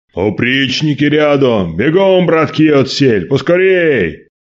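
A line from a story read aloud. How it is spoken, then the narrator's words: Loud shout. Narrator (Russian): Василий громко крикнул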